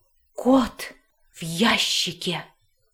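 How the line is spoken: Loud reverent whisper. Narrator (Russian): повторил пират огромным шепотом, благоговейно

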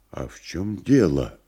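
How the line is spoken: Quiet question. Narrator (Russian): тихо спросил Никанор Иванович

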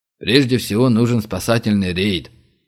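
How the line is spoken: Grumbling general. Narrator (Russian): проворчал генерал Зайцев

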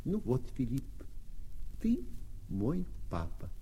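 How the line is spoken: Consoled, calm. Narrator (Russian): совсем утешившись, сказал

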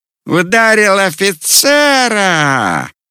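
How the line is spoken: Joyful triumphant yelling. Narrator (Russian): Орал он торжественно и радостно, словно только этого и ждал

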